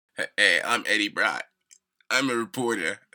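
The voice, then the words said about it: Drawn-out generic East Coast American accent. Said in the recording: “the American accent that Tom Hardy has ... generic like, East Coast man ... He sounds like he's stoned all the time ... He elongates every single word”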